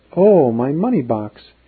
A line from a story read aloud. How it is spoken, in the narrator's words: she exclaimed